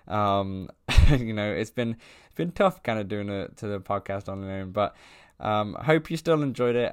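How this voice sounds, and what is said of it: Mixed British and Canadian accent. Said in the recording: “my half British, half Canadian accent”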